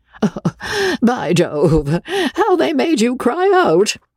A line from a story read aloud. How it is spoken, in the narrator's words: said Joe, exploding in a fit of laughter